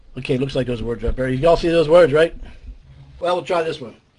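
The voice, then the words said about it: Voice in poor shape. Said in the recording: “My voice is pretty bad tonight ... It's pretty bad.”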